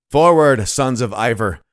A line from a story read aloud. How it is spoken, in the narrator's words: cried their chief